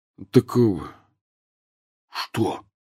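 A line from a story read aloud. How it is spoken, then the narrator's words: Very quiet, wary. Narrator (Russian): Очень тихо, словно боясь, что их может подслушать мебель спальни, спросил Рон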